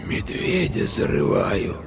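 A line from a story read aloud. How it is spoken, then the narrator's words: Girl's hoarse voice. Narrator (Russian): ответила девочка таким хриплым голосом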